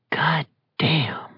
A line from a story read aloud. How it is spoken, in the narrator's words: he whispered